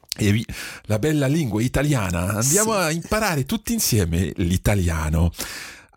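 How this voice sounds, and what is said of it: Italian spoken with a French accent. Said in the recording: “ça c'est l'italien avec un accent français”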